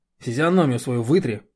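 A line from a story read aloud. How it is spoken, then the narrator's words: Irritated. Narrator (Russian): раздраженно говорю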